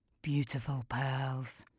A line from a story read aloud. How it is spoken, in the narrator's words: whispers